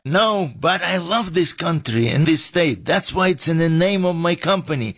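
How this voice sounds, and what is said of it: Foreign accent. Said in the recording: “what's up with your accent? We thought you grew up right here in the valley.”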